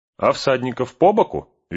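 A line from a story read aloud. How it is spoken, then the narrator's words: Cheerful question. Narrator (Russian): весело спросил Пин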